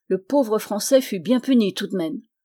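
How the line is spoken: Exclaimed. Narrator (French): s'écria Goton le cerf

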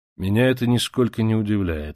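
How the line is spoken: Calm reply. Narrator (Russian): спокойно ответил Монтанелли

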